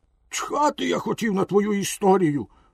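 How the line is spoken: Angry exclamation. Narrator (Ukrainian): вигукнув розлючений покупець

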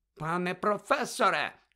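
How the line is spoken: Shouted. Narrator (Ukrainian): крикнула мадам Помфрі

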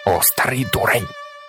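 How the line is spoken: Growled. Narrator (Ukrainian): прогарчала пані Маломотеня

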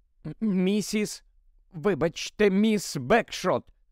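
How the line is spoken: Slightly trembling voice. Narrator (Ukrainian): звернувся він дещо тремтячим голосом

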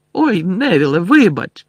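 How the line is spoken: Shout over laughter. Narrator (Ukrainian): вигукнув Фред, перекрикуючи сміх

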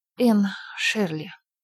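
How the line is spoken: Girl's trembling voice. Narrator (Russian): дрогнувшим голосом сказала девочка

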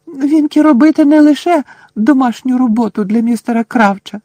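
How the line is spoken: Indignant squeak. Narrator (Ukrainian): обурено запищала Вінкі

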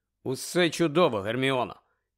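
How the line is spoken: Insincere, strange voice. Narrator (Ukrainian): якось нещиро, чужим голосом озвався Гаррі

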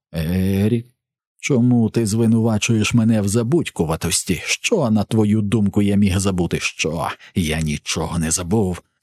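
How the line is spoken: Hissing, choking. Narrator (Ukrainian): сичав і захлинався Ерік

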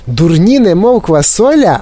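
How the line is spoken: Exclaimed. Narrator (Ukrainian): вигукнула Віолета Борегард

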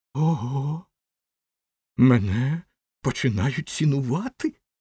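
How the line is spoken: Joyful exclamation. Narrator (Ukrainian): радісно вигукнув він

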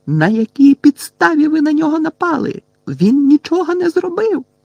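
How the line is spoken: Several voices shrieking. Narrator (Ukrainian): Герміона, Парваті і Лаванда заверещали

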